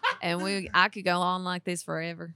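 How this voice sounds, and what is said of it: Put-on Southern accent. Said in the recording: “I always somehow slide into a southern accent. ... That's a really good one.”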